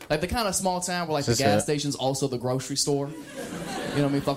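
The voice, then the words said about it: Rural American country accent. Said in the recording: “I'm talking so country”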